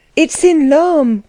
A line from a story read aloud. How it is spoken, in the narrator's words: cried someone with conviction